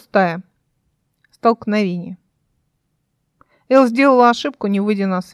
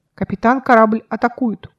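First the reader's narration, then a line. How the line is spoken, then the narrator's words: Very loud voice. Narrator (Russian): очень громко сказал голос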